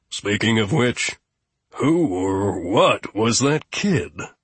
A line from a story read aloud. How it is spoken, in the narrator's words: Boltro groaned